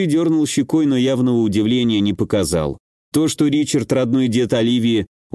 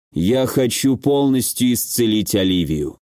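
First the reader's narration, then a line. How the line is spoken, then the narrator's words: Even, level voice. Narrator (Russian): ровным голосом произнес Ричард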